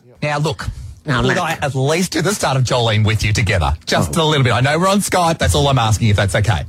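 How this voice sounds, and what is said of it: Strong Australian accent. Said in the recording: “You have such an accent ... You're very down under.”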